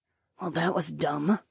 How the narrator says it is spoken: Lyca muttered

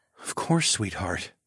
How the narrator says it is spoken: murmured

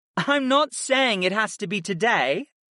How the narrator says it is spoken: Arwen laughed in a musical tone

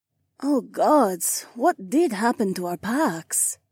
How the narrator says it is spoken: Jessamine groaned

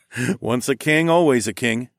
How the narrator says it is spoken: I chuckled

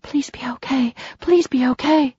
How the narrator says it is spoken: whispered over and over, praying

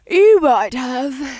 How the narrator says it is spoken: Libby said with a yawn

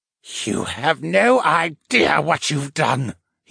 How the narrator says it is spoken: he muttered as his head dropped to his chest

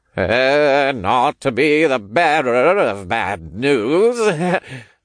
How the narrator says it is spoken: Oliver chuckled awkwardly

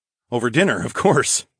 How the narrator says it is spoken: I laughed

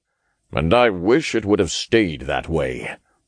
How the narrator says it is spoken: the Archangel grumbled

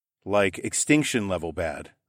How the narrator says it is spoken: I said

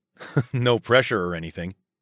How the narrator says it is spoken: chuckled

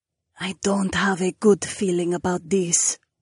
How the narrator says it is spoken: Jessamine hissed

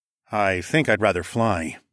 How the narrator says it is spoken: I murmured

